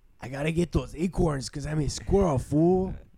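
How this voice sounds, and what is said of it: Squirrel character voice. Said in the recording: “It's like a good squirrel impression, I guess. ... That's the best squirrel impression.”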